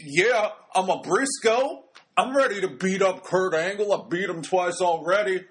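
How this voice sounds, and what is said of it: Imitates another person's voice. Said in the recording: “my Wes Briscoe impression. It's really good.”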